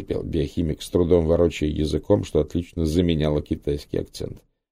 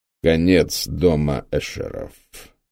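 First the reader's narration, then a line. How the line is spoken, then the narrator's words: Solemn announcement. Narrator (Russian): торжественно объявил контрразведчик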